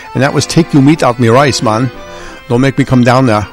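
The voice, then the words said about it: Poorly done put-on accent. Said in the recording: “I have a very bad accent.”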